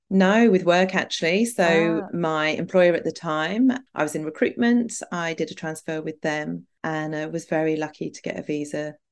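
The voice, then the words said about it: British accent. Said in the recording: “you sound British to me”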